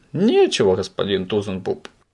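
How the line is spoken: Joyful confirmation. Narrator (Russian): радостно подтвердил господин Пепперминт

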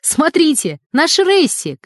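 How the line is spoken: Shouted. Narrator (Russian): крикнул Сергей Сыроежкин

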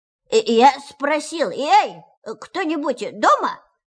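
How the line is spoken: Very loud repetition. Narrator (Russian): повторил Пух громко-громко

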